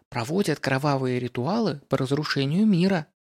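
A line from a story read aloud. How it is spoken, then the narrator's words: Quiet whisper. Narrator (Russian): тихо шепнула она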